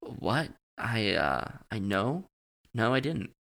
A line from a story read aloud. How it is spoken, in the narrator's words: stammered, realizing that I had been so unsure of what I'd seen